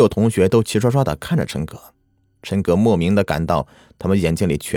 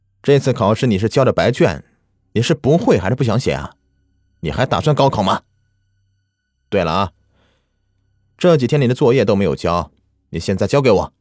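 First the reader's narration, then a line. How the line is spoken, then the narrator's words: Teacher's angry scolding. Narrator (Chinese): 宋老师怒斥道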